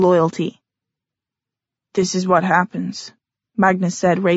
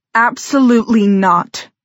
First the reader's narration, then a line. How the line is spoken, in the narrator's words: Helen shouted